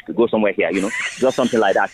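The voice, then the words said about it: Put-on Nigerian accent. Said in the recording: “if I must do a Nigerian accent, then I must switch”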